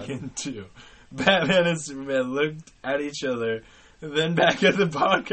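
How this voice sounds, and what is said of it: Usual voice. Nothing is said of it.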